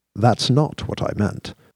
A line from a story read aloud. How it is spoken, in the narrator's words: he said calmly